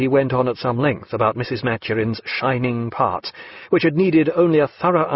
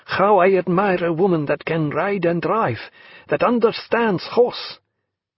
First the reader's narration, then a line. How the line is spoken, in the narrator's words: cried Jagiello